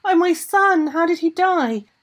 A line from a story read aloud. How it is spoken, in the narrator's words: the Mama Draga cried